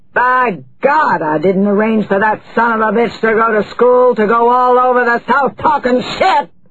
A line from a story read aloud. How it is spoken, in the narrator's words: Courtney Claiborne roared